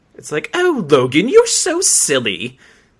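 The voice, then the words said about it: Mock snobby fake British accent. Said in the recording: “talk in the same snobby accent ... this British accent ... their attempt at a British accent”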